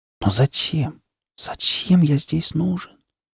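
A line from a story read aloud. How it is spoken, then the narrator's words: Despairing whisper. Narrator (Russian): Совсем потеряв всякую надежду, прошептал я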